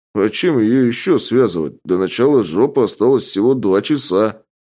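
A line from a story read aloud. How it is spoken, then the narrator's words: Plain. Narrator (Russian): ответил Гена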